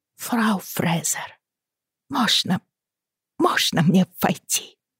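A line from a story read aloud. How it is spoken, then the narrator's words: Whispered. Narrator (Russian): прошептала она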